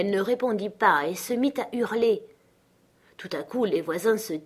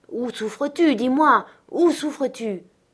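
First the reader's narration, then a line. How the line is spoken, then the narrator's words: Stammering. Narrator (French): Elle balbutia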